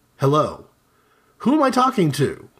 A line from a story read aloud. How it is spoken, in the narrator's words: the caller asked